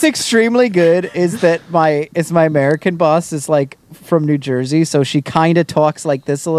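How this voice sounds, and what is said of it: Usual voice. Nothing is said of it.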